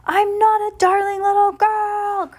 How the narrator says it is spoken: Carmelita screamed

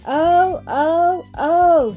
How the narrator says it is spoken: he sobbed

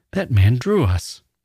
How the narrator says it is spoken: a voice cries

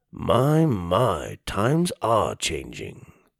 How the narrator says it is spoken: he mumbled

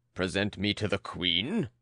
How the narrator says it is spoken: growled the brewer

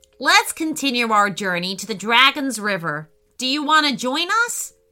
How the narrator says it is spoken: asked Roxy

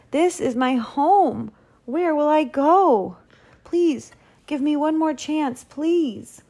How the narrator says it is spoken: pleaded Walter

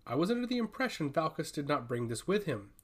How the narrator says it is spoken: says calmly

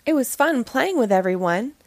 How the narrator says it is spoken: said happily

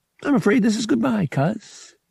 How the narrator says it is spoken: he said cheerfully

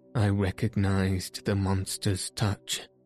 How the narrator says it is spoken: he said, with a deep sigh

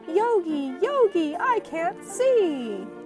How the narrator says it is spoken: Suddenly, Boo Boo cried out

